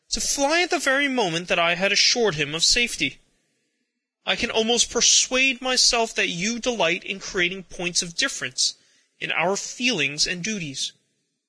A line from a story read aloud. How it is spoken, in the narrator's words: cried